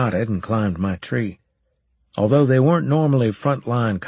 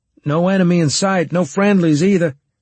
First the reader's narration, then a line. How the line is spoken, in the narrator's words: I shouted down